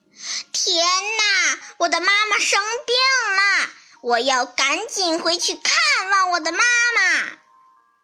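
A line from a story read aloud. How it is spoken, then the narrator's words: Loud exclaiming. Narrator (Chinese): 猪大姐就拍着大腿大声嚷起来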